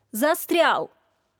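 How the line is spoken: Shout. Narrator (Russian): закричал Вадик

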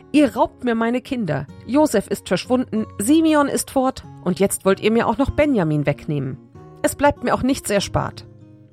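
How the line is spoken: Exclaiming. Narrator (German): Jakob rief aus

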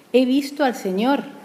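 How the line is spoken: Exclaiming. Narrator (Spanish): exclamaba

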